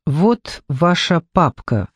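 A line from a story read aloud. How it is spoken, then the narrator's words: Plain. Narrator (Russian): сказал Джекоби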